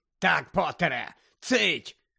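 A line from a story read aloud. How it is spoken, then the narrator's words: Bark. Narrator (Ukrainian): гаркнув Фадж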